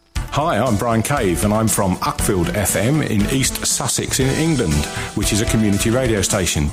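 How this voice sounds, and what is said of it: Genuine East Sussex English accent. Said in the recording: “That was a good East Sussex accent ... I think that's quite genuine, that.”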